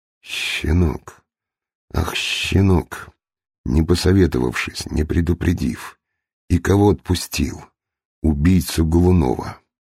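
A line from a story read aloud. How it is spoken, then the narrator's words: Husky, restrained anger. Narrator (Russian): сыщик, сдерживая гнев, сказал сиплым голосом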